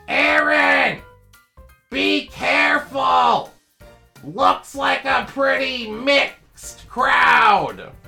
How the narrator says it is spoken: my grandmother yell out

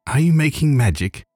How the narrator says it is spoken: said sharply

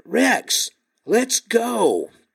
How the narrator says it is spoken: I yelled at him again

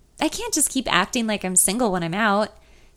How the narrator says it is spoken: she sighs

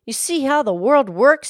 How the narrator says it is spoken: cried

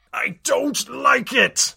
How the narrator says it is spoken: Ares screamed

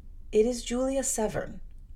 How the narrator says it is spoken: replied Miss Temple very quietly

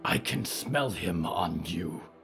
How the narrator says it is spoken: Yuretsi growled

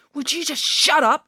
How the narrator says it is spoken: yelled Ian

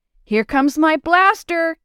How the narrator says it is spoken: she shouted

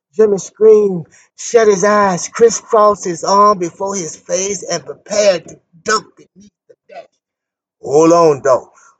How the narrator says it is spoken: Willie James shouted

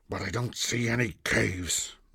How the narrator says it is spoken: mumbled Ash

